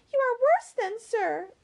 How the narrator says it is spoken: cried Emily, extremely alarmed by his manner

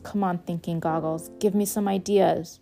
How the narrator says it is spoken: muttered under my breath

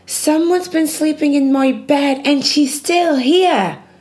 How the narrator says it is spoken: exclaimed Baby Bear

